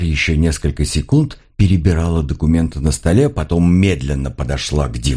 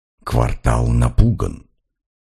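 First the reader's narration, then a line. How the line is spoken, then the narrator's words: Whisper. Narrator (Russian): прошептала она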